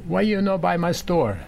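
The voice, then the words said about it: Heavy Italian accent. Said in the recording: “she in heavy Italian accent”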